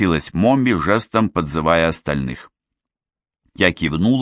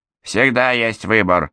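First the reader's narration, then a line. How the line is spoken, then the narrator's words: Sharp snap. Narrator (Russian): резко бросила Мелиндра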